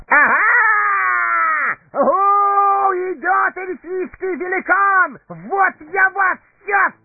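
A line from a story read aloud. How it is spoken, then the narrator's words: Emboldened shout. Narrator (Russian): закричал приободрившийся хоббит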